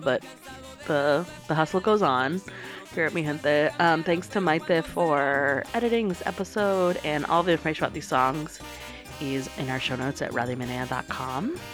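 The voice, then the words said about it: Slightly sick, congested-sounding voice. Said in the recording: “apologies about my voice. ... I have a little bit of a cold, as you might be able to tell”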